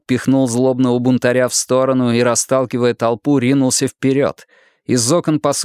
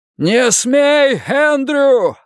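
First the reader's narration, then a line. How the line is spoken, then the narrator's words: Yelled. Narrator (Russian): заорал Финли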